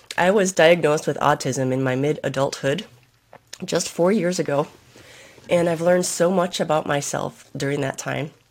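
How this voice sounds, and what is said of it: Sick-sounding voice. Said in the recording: “sorry for my voice as well because I'm sick”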